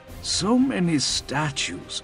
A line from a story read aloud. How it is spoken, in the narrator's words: Peshik murmured